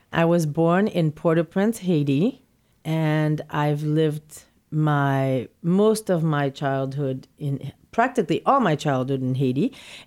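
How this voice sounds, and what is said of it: Slight Haitian accent. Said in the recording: “a little bit of an accent in your voice ... you are not from New York City”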